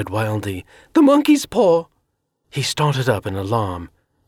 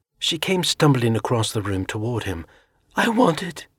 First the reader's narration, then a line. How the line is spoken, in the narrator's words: she said quietly